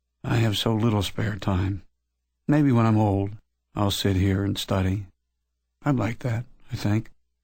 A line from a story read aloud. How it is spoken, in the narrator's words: Leader sighed